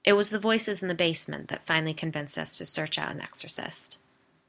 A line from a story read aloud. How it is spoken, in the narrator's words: Edward smiled sadly and said